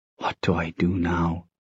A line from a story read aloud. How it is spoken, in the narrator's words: He whispered